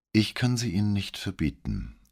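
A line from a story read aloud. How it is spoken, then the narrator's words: Weak, tired reply. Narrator (German): versetzte sie mit matter Stimme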